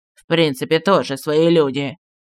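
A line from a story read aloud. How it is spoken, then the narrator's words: Lowered voice. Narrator (Russian): сказал, понизив голос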